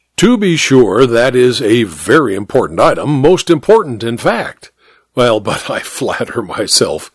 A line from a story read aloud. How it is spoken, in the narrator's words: the doctor chuckled softly